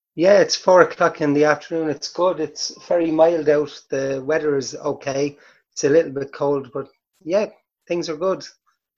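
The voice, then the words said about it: Irish accent. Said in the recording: “The Irish accent and the American accent is very different”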